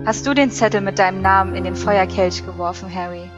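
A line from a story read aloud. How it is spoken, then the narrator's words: Calm question. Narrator (German): fragte Dumbledore ruhig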